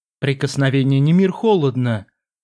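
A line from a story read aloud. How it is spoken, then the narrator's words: Calm. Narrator (Russian): спокойно заметил некромант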